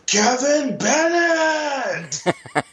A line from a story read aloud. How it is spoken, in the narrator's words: a guy in the crowd yell